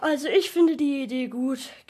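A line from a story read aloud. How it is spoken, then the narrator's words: Yawning, groaning. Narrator (German): gähnte stöhnend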